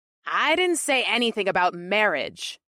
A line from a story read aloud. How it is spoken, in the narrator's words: Amrilla squeaked